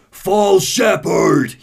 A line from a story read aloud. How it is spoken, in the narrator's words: he roars